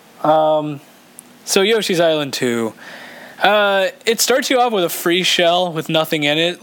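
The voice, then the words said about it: Slightly sore, cold-like voice. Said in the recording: “I'm sorry if I sound like I have a cold. ... My throat's a little sore.”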